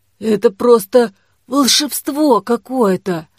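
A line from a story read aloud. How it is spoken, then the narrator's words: Wheezed. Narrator (Russian): прохрипела Дамба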